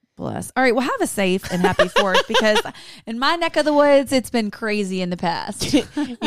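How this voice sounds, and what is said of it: Southern American accent. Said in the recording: “you have a Southern accent”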